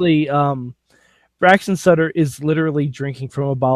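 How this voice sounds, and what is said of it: Usual voice. Nothing is said of it.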